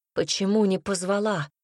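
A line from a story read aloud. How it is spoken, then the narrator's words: Breathless exhale. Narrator (Russian): наконец выдохнул Гариус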